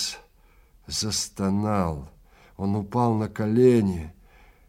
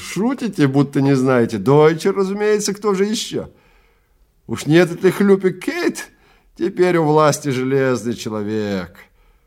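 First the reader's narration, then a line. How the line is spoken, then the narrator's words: Giggling. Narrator (Russian): Человек за конторкой хихикнул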